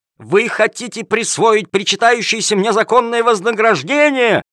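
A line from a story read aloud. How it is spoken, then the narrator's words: Wailing, yelling. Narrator (Russian): вопил Калимер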